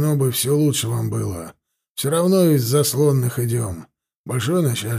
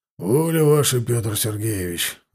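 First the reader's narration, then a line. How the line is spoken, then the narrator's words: Sighing. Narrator (Russian): вздохнул Сошников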